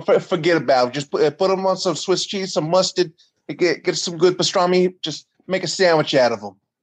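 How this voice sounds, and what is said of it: Put-on New Jersey accent. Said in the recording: “I like that accent right there... the accent that ... did right there... My mom's from New Jersey.”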